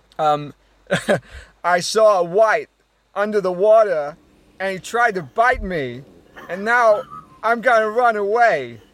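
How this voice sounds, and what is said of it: Christopher Walken impression. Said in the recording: “do an impression of an oceanographer ... Christopher Walken ... I haven't done a Walken for a while”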